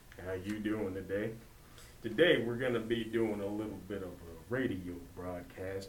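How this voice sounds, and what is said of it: Deep smooth radio announcer voice. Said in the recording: “my sexy radio voice”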